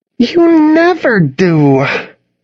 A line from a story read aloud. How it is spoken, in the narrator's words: Charlotte said with an exasperated sigh